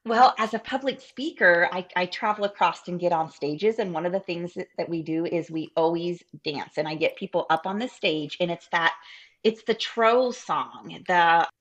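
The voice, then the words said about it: Southern US accent. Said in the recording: “I'm right on the river, so I'm 5 minutes from Kentucky. So right. My accent is even more Southern because of that.”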